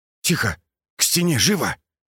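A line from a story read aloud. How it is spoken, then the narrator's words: Hissed urgently. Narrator (Russian): прошипел он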